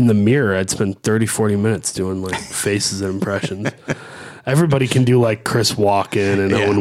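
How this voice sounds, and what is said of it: Usual voice. Nothing is said of it.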